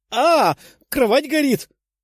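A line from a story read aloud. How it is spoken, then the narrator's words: Shouting woman. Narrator (Russian): прокричала беловолосая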